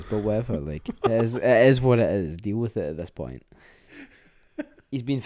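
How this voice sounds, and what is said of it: Usual voice. Nothing is said of it.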